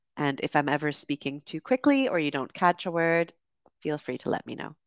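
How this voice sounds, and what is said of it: Canadian accent with slight UK influence. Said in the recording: “this is a Canadian accent that you are hearing. However, I did spend 8 years in the UK, so it might be a little bit different from a classic Canadian accent.”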